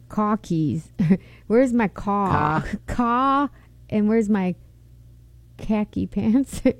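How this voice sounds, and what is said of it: Put-on Boston accent. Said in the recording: “So can you do a Boston accent?”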